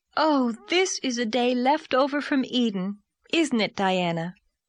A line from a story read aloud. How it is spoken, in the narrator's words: Anne sighed for sheer happiness